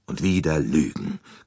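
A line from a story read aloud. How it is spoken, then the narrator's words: Bitter growl. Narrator (German): knurrte er erbittert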